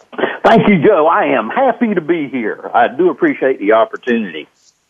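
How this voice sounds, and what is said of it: North Carolina Southern US accent. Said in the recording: “I love that accent. So he's from North Carolina.”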